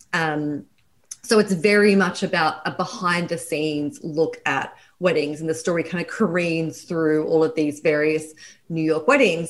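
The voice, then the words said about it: Australian accent. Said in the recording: “I'm Australian. That's my accent.”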